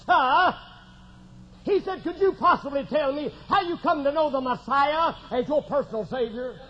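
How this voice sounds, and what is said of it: English accent. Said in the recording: “in an English accent”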